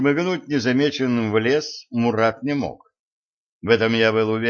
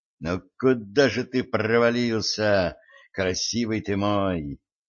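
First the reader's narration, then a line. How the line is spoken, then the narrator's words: Angry mutter. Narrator (Russian): Злобно пробормотал я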